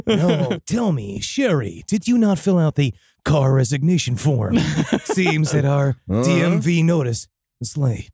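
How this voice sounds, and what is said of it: Earnest, energetic radio announcer voice. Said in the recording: “it's a little too emotional ... A little bit less energy ... the true, unwavering voice of the unbiased historian ... That's a true radio voice. That is the voice of a true radio professional.”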